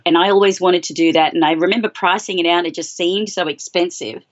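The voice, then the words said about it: Australian accent. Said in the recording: “I'm Australian, in case anyone's wondering what the accent is.”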